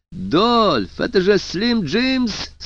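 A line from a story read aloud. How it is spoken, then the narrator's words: Happy smiling voice. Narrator (Russian): сказал радостно улыбаясь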